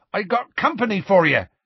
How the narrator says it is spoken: Hagrid shouted

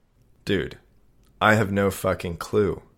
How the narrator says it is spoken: I said

